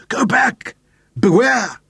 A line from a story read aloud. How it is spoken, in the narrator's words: his voice was a throaty croak